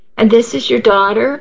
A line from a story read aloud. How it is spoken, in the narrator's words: Allie asked brightly